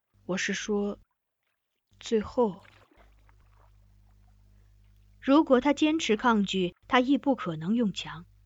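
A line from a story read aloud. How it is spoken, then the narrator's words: Low voice after light cough. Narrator (Chinese): 掩饰性的轻咳两声，他又低声问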